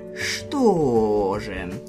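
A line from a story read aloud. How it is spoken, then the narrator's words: Drawn-out drawl. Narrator (Russian): протянул я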